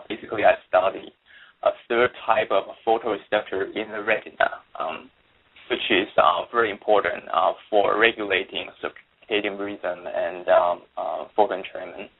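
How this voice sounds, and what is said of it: Non-American foreign accent. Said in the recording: “as you can probably tell by now by my accent, um, I'm not really an American”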